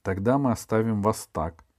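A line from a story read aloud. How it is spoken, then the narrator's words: Plain. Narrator (Russian): сказал он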